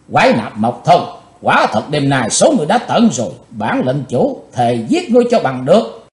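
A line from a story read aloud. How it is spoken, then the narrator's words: Hateful shout. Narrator (Vietnamese): Chàng thét với giọng căm thù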